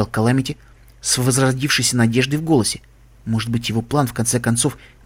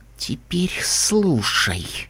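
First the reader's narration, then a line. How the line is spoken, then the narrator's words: Whisper. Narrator (Russian): прошептала она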